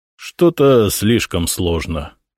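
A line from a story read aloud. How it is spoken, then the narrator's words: Grumbling. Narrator (Russian): проворчал Никита Михайлович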